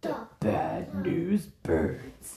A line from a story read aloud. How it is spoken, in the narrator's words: Ace growled